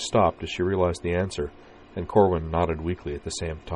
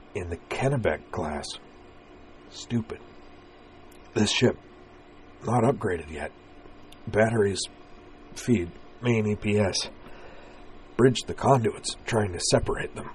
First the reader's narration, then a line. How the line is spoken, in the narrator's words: added in a rueful murmur